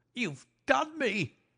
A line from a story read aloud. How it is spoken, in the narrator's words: he cried